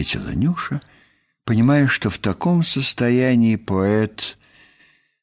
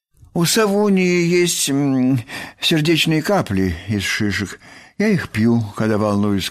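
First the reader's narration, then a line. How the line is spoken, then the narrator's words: Plain. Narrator (Russian): сказал Бараш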